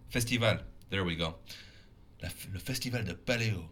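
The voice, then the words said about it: Terrible put-on French accent. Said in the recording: “speak French with a terrible accent”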